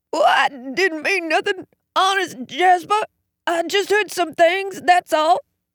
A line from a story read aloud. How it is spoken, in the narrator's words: he squeaked